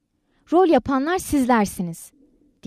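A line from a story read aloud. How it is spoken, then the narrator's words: Crying out. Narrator (Turkish): diye haykırdı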